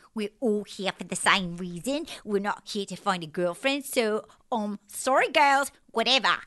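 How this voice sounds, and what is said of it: Imitates another person's voice. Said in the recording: “that was like ... doing an impression of Nicole.”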